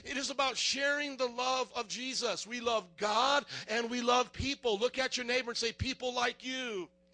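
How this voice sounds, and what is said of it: Yelling loudly. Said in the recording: “I'm going to stop yelling”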